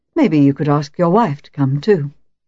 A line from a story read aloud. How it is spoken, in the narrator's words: I added smoothly